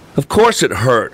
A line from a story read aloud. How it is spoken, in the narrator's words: I snapped